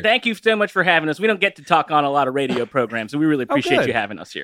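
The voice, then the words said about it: Southern US accent. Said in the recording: “you're from the South, from the Lilt. ... Your voices.”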